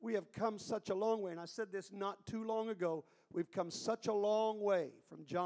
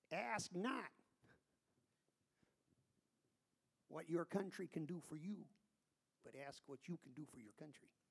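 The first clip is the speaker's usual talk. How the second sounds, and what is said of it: Bostonian accent impression. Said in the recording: “that's about the best Bostonian accent I can do”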